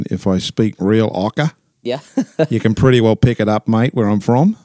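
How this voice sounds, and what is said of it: Strong Australian accent. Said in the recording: “your accent gives you away ... it depends on how I throw my accent ... from Australia”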